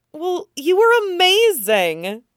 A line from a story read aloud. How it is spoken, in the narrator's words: Sansa positively squeals